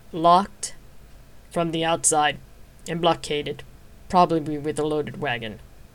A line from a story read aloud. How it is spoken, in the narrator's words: the man agreed grimly